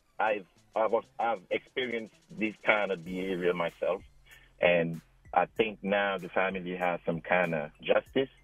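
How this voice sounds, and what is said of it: African-accented English. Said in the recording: “I'm sorry for my accent. I'm from Africa”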